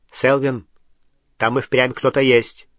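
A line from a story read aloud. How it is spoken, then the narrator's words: Sharp tone. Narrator (Russian): резким тоном произнес второй волшебник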